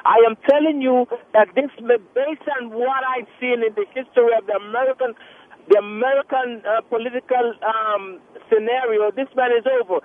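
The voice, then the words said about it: Thick foreign accent. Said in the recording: “I have a thick accent too, but mine's not. I don't know. Yours sounds thicker. ... This guy sounds like he got a thick accent.”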